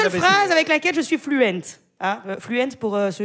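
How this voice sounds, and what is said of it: Usual voice. Nothing is said of it.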